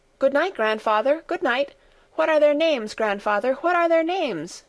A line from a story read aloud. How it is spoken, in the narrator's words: she called out as she ran after his retreating figure